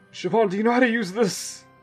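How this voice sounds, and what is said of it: Old, exhausted man's voice. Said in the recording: “Why do I sound like a fucking old, apparently as exhausted as Asad sounds like an old, like, man.”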